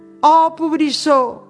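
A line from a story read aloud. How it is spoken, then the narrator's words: Shouted. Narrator (Catalan): va cridar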